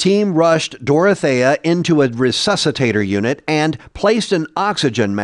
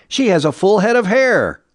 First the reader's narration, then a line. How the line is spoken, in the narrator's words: he shouted